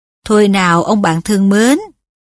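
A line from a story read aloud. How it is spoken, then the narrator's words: Plain. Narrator (Vietnamese): y nói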